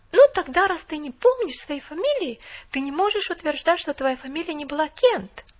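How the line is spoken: Exclaiming. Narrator (Russian): воскликнула она

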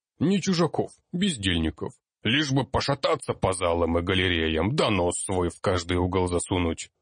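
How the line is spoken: Gnome's grumble. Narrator (Russian): пробурчал гном

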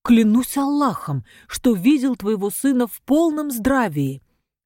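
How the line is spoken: Exclaiming. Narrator (Russian): воскликнул Мустафа Истома

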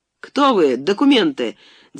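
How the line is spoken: Shouted with feigned agitation. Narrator (Russian): крикнул я, стараясь выразить в лице и в голосе волнение

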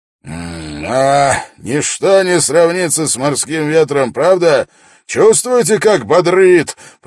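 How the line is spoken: Roared. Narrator (Russian): проревел Свенгл

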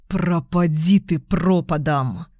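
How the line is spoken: Hissing. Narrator (Russian): Прошипел он

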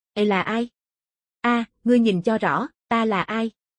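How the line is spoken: Cold. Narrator (Vietnamese): Hắn lạnh lùng nói

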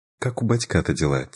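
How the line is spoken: Quiet, discreet question. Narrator (Russian): тихо спросила мама, когда Мирослава не слышала

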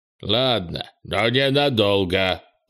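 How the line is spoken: Old creature grumbling. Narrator (Russian): проворчал старый лун

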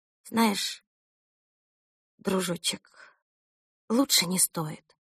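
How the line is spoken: Mother whispering. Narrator (Russian): прошептала мама

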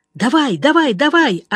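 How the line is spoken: Yelling. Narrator (Russian): орал Жеглов

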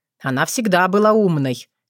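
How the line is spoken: Muttered scoff to himself. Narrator (Russian): хмыкнул про себя Вран

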